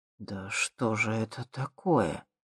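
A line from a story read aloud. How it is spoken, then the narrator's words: Shocked breathless exclamation. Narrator (Russian): потрясенно выдохнул Михалыч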